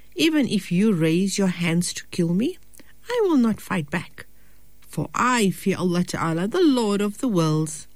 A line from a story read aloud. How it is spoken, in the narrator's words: He said calmly to his brother